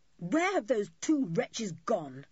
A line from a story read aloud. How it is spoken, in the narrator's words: suddenly said Julian fiercely